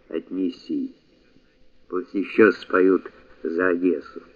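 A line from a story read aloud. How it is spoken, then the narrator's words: Hoarse speech. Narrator (Russian): подполковник хрипло говорил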